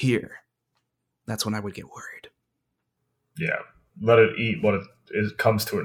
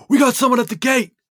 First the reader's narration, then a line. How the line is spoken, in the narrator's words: one of the guards yells